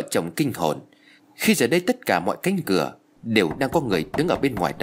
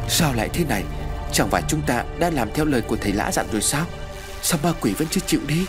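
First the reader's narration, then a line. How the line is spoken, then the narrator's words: Breathless panting. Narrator (Vietnamese): Bà Hoài thở hổn hển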